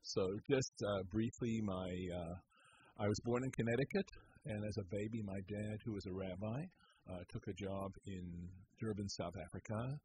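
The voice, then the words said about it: Bronx accent. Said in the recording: “that Bronx accent of yours”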